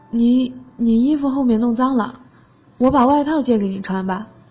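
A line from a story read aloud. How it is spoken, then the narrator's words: Stammering. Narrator (Chinese): 那个男生结结巴巴的说了一句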